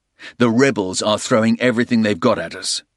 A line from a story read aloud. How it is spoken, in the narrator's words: Porter replied firmly